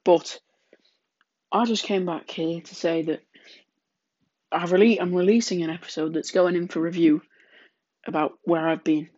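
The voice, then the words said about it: Congested voice with a cold. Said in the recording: “I've got a bit of a cold, so excuse the sniffling throughout this episode”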